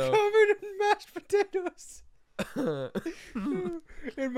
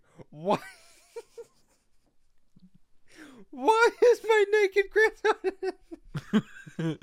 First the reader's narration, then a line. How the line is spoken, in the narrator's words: my grandmother screaming